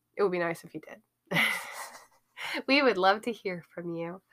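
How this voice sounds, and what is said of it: Polite customer service voice. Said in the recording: “in my best customer service voice”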